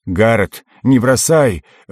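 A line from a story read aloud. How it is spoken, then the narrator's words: Shout. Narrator (Russian): выкрикнул он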